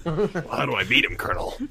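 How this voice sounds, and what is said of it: Solid Snake video game voice. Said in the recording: “that was a really good Solid Snake impression.”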